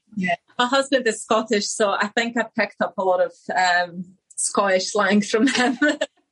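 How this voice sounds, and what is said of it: Polish accent mixed with Glaswegian. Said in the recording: “your accent is amazing. It's a real mix of Polish and Glaswegian.”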